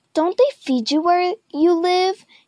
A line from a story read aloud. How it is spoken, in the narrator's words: sneered